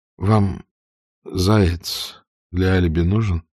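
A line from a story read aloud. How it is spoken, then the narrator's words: Plain question. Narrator (Russian): спросил Вихрь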